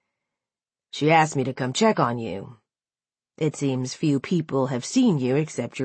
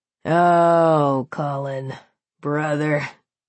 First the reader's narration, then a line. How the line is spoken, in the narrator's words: he chuckled, his tone berating